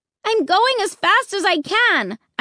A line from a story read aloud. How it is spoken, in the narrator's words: I screamed